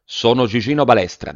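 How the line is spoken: Plain. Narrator (Italian): disse

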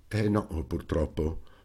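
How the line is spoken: Frowning sigh. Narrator (Italian): sospirò, accigliandosi

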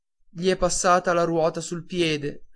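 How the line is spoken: Plain. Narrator (Italian): rispose

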